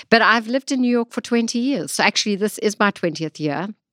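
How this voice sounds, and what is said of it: South African accent. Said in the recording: “I consider myself still to have a very South African accent ... you can drop your American accent”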